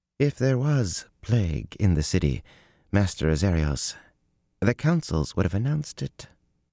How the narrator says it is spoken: the slim woman sitting across from him said calmly

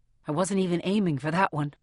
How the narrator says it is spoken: I mutter

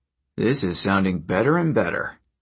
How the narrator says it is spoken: Frank mumbled

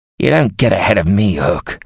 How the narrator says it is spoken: Sir John growled

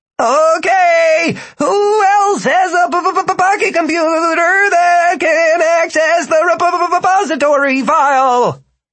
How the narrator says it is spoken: Philip yelled

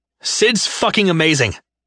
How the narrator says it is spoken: I snapped at him, my voice carrying through the room

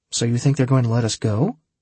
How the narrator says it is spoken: asked Holly

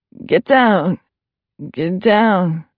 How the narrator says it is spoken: The voice that spoke was sharp-edged but muted, and the words were slurred like somebody talking in their sleep

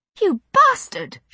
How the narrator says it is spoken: shrieked

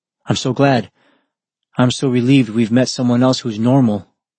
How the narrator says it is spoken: Adrenaline was still rushing through his body, but Shuya managed to blurt out

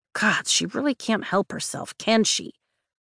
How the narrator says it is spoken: Rhiannon says under her breath

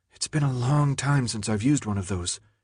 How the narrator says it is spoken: she whispered to Thomas

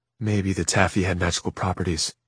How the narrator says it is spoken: Sister Amelia said softly to Jem

